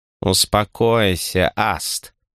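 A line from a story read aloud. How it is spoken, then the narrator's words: Purred, cat-faced girl. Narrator (Russian): Промурлыкала девушка-зверолюд с кошачьей мордой по имени Варра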